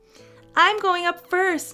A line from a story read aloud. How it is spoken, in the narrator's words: yelled Parker